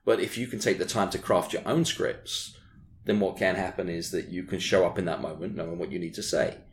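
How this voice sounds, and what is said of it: British accent. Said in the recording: “you probably haven't got the British accent.”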